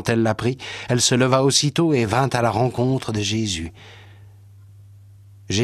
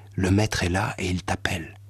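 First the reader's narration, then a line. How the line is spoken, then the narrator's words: Low voice. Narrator (French): lui dit à voix basse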